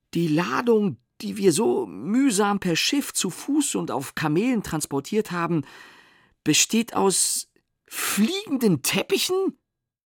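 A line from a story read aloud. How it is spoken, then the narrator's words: Angry stammer. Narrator (German): stammelte Sintflut und wurde zornesrot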